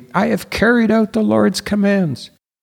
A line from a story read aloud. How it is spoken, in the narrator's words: Saul greeted Samuel cheerfully